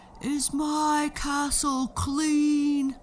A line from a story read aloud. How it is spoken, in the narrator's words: the giant would yell